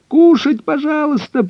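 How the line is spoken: Squeaky voice from above. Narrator (Russian): пропищала где-то наверху Кайса

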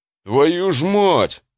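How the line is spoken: Howled. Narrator (Russian): взвыл

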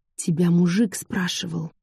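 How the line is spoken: Conspiratorial whisper. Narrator (Russian): С видом матерой заговорщицы шепнула

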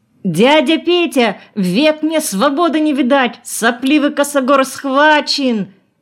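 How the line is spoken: Shouting from afar. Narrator (Russian): Еще издали кричал Петров

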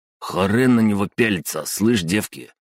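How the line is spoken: Angry mutter. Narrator (Russian): зло буркнул Глиста

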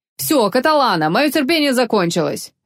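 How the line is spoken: Sharp. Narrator (Russian): резко сказал Вольпе

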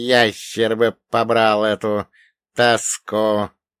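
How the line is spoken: Sleepy mutter. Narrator (Russian): сонно пробормотал он

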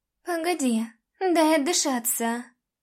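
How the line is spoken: Said quietly. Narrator (Russian): тихо сказала я

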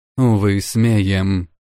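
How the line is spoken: Sad reply. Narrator (Russian): грустно ответила Улла

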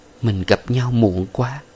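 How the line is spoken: Soft murmur against chest. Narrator (Vietnamese): Nàng nói khẽ trên ngực Tuấn

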